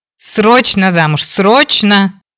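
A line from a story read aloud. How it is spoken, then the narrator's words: Howling wail. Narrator (Russian): взвыл Фрэнк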